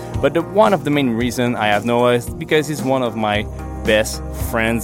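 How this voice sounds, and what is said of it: Non-native accented English. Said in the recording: “my English accent”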